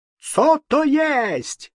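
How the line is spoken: High-pitched squeal. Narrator (Russian): завизжал дишкантом поляк

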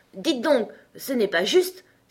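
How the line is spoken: Unicorn exclaiming. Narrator (French): s'écria la licorne

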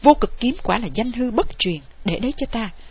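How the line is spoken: Loud shout. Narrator (Vietnamese): y quát lớn

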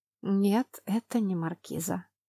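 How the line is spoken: Sigh. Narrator (Russian): вздохнула я

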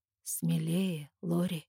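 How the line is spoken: Hoarse request. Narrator (Russian): хрипло просит Эрик

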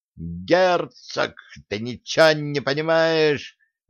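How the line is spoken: Heated yelling. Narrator (Russian): взапали орал Квелый Колян

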